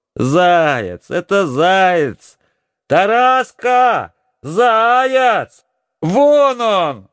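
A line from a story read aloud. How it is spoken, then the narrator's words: Excited shouting. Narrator (Russian): кричала Ольгушка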